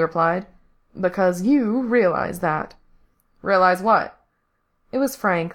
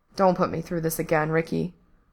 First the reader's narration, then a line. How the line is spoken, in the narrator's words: Frank said quietly